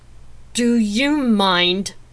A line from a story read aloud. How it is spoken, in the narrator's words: I growled at Effany